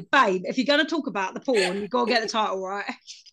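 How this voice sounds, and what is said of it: Put-on Essex accent. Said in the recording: “I don't know why I gave him an Essex accent.”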